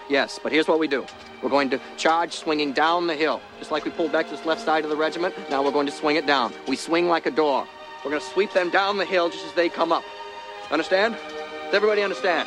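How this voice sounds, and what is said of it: Maine accent. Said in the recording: “They had a pretty good Maine accent there”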